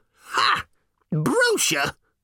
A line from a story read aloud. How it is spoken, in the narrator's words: spat the old woman